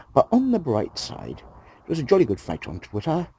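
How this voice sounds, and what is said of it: Put-on posh accent. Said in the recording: “putting on this stupid voice? ... I'm not posh, you know. I really am not posh.”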